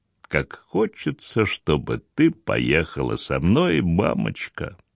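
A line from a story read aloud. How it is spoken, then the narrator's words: Mumbled, holding back sobs. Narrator (Russian): не в силах подавить подступающие рыдания, Гвендолин пробормотала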